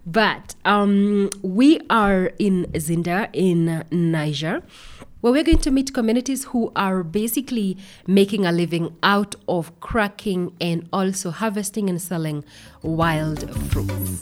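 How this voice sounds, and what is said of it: Sick-sounding, affected voice. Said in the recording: “I'm hoping my voice is not so distracting today. I'm recovering from a flu”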